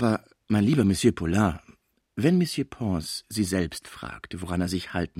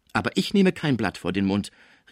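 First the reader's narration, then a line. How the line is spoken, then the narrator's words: Calling out. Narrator (German): rief die Cibot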